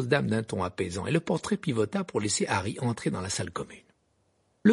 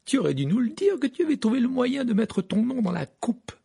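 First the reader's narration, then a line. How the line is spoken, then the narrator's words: Exclaimed. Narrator (French): s'exclama Fred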